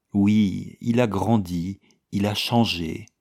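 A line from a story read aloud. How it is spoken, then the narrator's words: Slow. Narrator (French): dit Madame Valmondé, lentement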